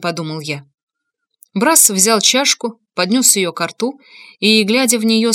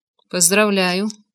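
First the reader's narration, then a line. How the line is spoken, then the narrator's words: Gloomy voice. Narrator (Russian): мрачным голосом сказал я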